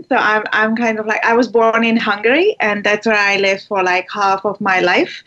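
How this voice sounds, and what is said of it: Noticeable foreign accent. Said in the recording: “as you can tell from my, you know, accent, my strange accent.”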